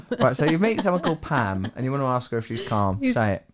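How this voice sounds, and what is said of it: Essex English accent. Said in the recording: “you have an Essex accent, so sometimes it goes a bit”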